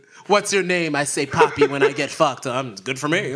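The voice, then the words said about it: Put-on Spanish accent. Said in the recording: “I have a Spanish accent.”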